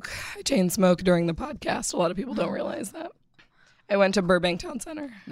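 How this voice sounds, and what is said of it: Unusual, off-sounding voice. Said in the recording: “She sounds weird today. ... I apologize for my voice, ... I have allergies.”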